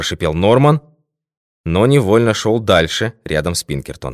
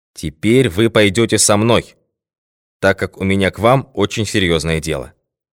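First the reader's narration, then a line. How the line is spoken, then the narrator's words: Determined tone. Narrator (Russian): решительным тоном произнес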